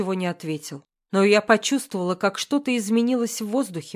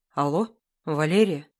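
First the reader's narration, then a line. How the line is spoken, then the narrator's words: Hoarse, broken voice. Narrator (Russian): Голос был хриплым, надломленным, знакомым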